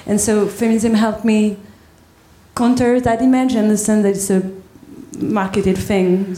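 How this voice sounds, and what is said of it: French accent. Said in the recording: “your accent, because it's beautiful, it's charming. Is it French? Yes, absolutely.”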